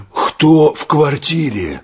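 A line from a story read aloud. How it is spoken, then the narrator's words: Slightly hoarse wolf. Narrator (Russian): сипловато спросил волк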